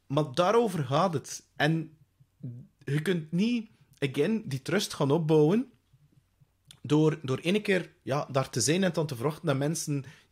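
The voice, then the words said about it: Mild West Flemish accent. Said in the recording (Dutch): “mijn semi-West-Vlaams accent”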